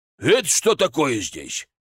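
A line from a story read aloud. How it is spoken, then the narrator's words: Menacing old man's question. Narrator (Russian): грозно спросил старик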